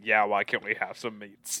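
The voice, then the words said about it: Imitates an orc movie character. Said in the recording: “that impression”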